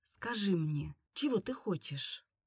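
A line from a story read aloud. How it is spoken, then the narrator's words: Intimate whisper into ear. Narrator (Russian): он нагнулся к моему уху и прошептал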